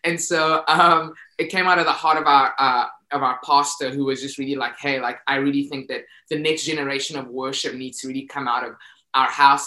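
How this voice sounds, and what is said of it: Speaker's own noticeable accent. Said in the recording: “I have an accent, so I'm not saying pasta, like ... pasta. ... The thing that you might eat. It's just my accent.”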